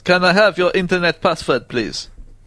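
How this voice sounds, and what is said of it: Poor put-on Russian accent. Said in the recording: “imagining a Russian in a fake mustache ... my accents are really off this evening”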